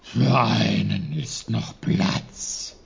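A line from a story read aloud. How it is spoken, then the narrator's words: Bear's growl. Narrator (German): knurrte der Bär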